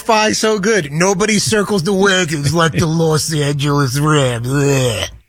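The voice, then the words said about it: Imitates another person's voice. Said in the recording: “You're a much better Chris Berman in person ... I'm trying to do the impersonation”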